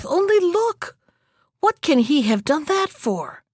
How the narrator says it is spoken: exclaimed the youth

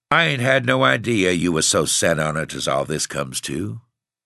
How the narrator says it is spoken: said hoarsely

